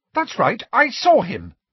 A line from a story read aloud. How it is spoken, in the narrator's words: she said fiercely